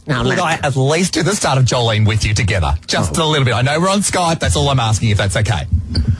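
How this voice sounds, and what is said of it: Strong Australian accent. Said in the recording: “You have such an accent, you know. ... You're very down under.”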